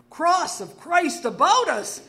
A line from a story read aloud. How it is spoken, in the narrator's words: he exclaimed